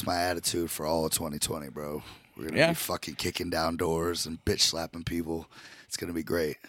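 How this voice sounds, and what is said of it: Strained, worn-out voice after illness. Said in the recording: “my voice is fucking shot to begin the year ... you were pretty sick ... just my voice is still recovering”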